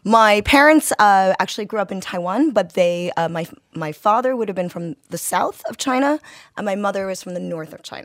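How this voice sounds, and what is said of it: American accent. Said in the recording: “Yours an American accent.”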